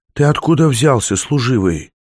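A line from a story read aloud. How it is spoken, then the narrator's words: Hoarse. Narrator (Russian): хрипло сказала она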